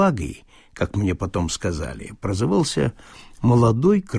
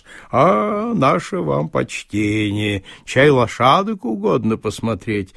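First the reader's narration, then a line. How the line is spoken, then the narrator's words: Sing-song. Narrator (Russian): нараспев, произнес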